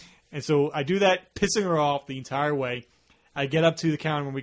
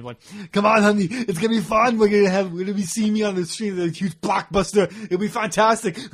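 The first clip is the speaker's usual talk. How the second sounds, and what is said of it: Imitates another person's voice. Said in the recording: “doing an Arnold impression.”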